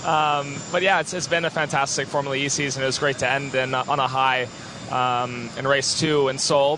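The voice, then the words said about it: Hoarse, strained voice. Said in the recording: “Pardon me if I'm losing my voice a little bit.”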